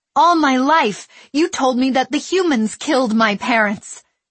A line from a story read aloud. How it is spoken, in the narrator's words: she shouted at the Padawan